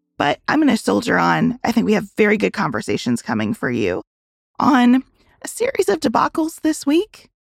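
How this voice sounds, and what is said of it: Weak, nearly lost voice. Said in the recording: “My voice is just barely here ... It's tough when your voice is barely here”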